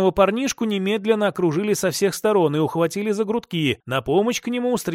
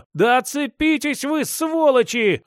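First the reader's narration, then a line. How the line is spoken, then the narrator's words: Howling. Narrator (Russian): взвыл Степан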